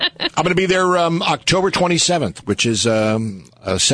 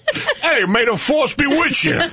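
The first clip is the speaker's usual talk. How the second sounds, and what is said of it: Put-on Brooklyn accent. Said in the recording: “your Star Wars Brooklyn accent.”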